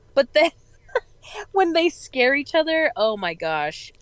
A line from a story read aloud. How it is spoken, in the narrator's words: I laughed